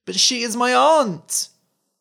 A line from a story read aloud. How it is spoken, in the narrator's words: cried the boy